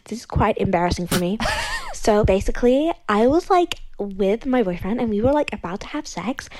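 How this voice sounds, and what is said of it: Fake put-on accent. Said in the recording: “I am using a fake accent as I don't want to get recognized. ... I think I just lost my accent anyway.”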